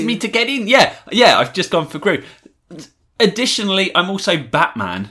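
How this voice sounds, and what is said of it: Usual voice. Nothing is said of it.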